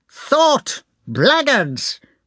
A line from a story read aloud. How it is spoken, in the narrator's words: shouted the prince rapidly